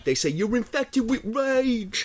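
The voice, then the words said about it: Put-on accent, done well. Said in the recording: “That was a really good accent, actually.”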